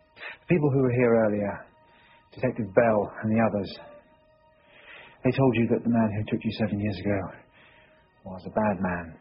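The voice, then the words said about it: Non-American accent. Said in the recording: “You can probably tell from my accent, I'm not a New York City police officer”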